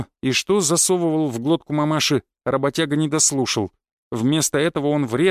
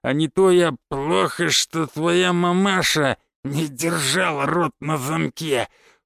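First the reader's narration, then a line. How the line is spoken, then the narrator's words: Wheezed hoarsely. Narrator (Russian): прохрипел Константин Львович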